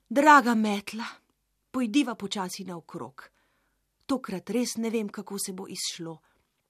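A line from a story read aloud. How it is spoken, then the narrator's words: Deep sigh. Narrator (Slovenian): Globoko je zavzdihnila in rekla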